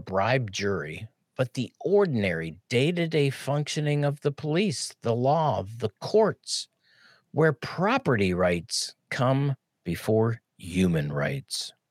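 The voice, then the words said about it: Pittsburgh accent. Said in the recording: “Pittsburgh accent comes out ... awesome accent”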